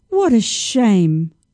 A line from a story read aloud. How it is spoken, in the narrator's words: said sadly